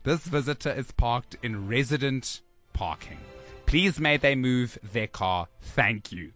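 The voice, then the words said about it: Put-on accent, not very accurate. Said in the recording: “I'm just adding an accent, but I'm sure it's not very, I think it's very far off.”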